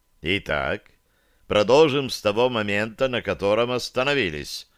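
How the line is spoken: Cold, smiling. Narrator (Russian): проговорил я, холодно улыбаясь

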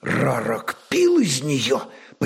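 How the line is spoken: Near-whisper question. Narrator (Russian): почти шепотом спросил воевода

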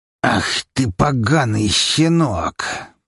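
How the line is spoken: Furious near-hiss. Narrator (Russian): Практически прошипел Штайнберг

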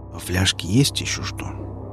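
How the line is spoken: Very quiet question. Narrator (Russian): спросил он очень тихо

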